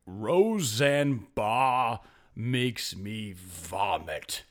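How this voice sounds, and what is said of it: Imitates a man's very deep voice. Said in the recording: “I'm going to do his voice. It was super deep. I don't know if I can replicate it”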